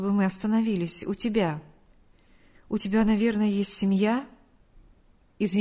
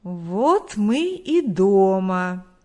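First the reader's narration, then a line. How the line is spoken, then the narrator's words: Drawled. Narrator (Russian): протянул Виктор Егорович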